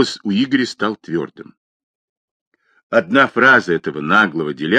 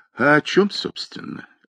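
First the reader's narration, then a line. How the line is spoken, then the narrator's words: Lazy drawl. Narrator (Russian): лениво процедил Сергей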